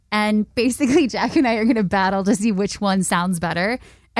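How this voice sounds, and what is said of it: Polished radio-host voice. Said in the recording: “you got a really good radio voice.”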